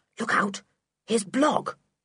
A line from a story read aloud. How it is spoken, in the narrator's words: said Sooty suddenly in a low voice